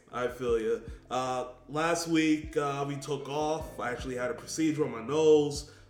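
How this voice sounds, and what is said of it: Congested, nasal voice. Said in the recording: “I sound a little congested”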